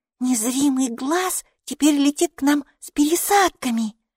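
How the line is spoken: Whisper. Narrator (Russian): шепнула Майки Алисе

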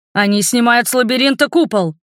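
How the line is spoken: Dragon's hurried shout. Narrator (Russian): успел крикнуть дракон

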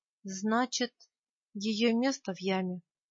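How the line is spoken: Sad. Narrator (Russian): печально произнес я

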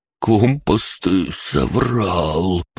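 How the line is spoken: Pale, hoarse rasp. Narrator (Russian): прохрипел бледный Бран

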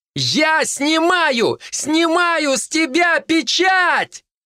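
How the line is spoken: Yell. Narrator (Russian): заорала

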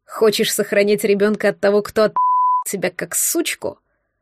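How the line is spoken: Contemptuous angry hiss. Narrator (Russian): Зло прошипел Григорий, и его красивое лицо исказилось от презрения

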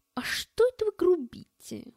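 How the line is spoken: Indignant. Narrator (Russian): возмущенно произнес Эд

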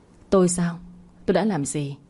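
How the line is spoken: Weary sigh. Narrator (Vietnamese): cô dựa lưng vào thành ghế với thái độ chán trường mà thở dài

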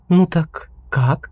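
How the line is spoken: Soft question. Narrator (Russian): мягко спросила Сельда

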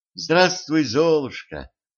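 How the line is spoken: Solemn. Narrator (Russian): торжественно сказала она

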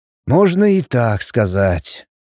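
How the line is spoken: Sighing. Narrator (Russian): Лин вздохнул

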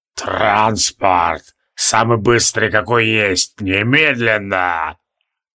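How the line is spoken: Creaky rasp. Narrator (Russian): Тивилдорм проскрипел

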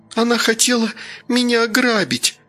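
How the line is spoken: Hurt whimpering. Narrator (Russian): Обиженно хныкала Стася

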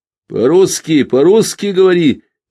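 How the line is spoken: Commander's shout. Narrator (Russian): крикнул командир

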